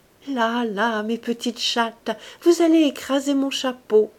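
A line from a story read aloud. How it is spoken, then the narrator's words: Fluty voice. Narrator (French): d'une voix flûtée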